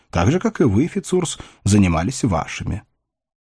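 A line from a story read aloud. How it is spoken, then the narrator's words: Calm. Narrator (Russian): отвечал де Браси спокойно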